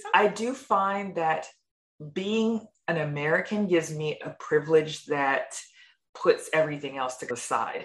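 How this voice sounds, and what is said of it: American accent. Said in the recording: “that American accent”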